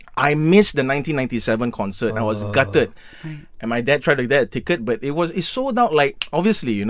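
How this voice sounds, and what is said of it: Usual voice. Nothing is said of it.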